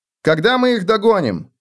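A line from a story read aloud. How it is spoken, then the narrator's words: Shout. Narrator (Russian): крикнул Феликс Готреку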